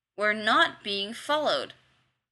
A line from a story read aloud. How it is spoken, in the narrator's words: Kavanaugh said tightly